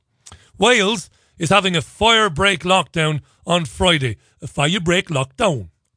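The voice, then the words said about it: Poorly done put-on accent. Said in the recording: “I know my accents are garbage. They all sound the same.”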